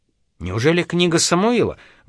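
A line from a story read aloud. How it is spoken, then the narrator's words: Impatient exclamation. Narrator (Russian): воскликнул Кеннеди, не выдержав долгого молчания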